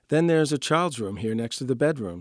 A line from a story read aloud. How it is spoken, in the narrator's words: says the woman